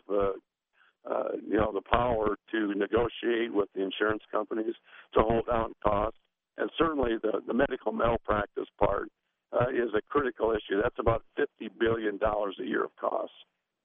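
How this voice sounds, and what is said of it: Strained, fading hoarse voice. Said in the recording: “I'm losing my voice.”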